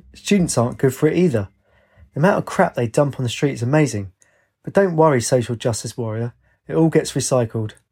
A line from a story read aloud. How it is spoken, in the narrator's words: The man chuckled and said